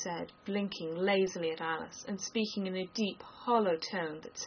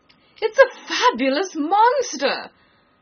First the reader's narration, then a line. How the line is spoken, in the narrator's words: the unicorn cried out